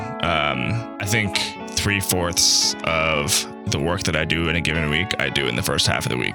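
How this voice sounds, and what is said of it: Tired, sleepy voice. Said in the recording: “I might sound a little sleepy”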